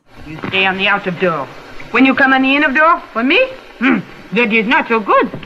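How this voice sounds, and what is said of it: Moderate voice, convincing French accent. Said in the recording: “surprisingly moderate voice and her really solid French accent”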